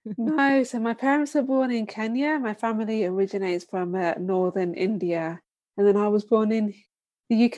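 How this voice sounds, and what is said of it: British accent. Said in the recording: “you grew up in the UK based on your accent”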